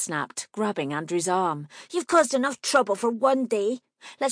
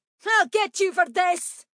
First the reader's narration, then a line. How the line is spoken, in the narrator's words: he yelled at Charlie